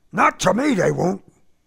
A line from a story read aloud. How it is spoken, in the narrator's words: he shouted